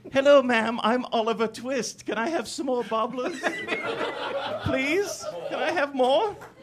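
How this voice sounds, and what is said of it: Put-on British accent. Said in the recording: “preferably in a British accent”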